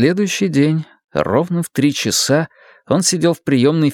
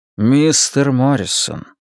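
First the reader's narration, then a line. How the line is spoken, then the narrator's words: Solemn. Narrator (Russian): торжественно произнес Донатти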